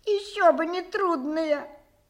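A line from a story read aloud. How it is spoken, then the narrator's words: Sigh. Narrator (Russian): вздохнула Маринетта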